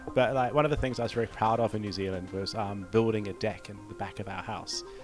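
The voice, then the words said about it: New Zealand accent. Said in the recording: “your kiwi accent”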